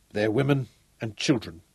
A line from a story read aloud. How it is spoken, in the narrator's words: he said